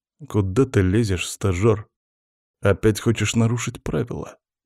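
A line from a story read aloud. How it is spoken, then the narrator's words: Through gritted teeth. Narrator (Russian): процедил Андрей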